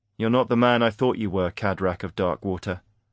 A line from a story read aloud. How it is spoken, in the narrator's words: Aaron said coldly